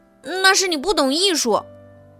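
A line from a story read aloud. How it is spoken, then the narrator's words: Shouting. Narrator (Chinese): 小胖墩儿冲着卡梅利多喊道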